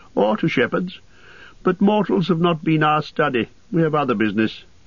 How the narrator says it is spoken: laughed Lindir

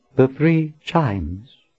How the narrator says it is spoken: Anne said in a cautious voice

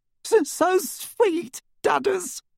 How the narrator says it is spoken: she sobbed into his massive chest

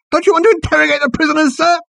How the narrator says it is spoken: he squealed

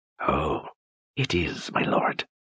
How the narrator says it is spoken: she hissed

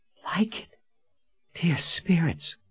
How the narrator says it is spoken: she breathed

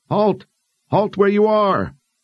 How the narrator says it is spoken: cupped her hands around her mouth and yelled

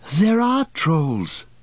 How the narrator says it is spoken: Pippin panted

